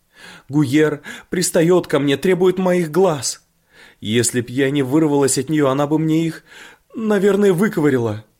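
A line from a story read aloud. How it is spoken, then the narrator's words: Sobbing. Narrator (Russian): она сказала сквозь рыдания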